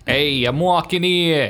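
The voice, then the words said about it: Weak put-on New York accent. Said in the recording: “You do a good New York accent. ... It's pretty weak.”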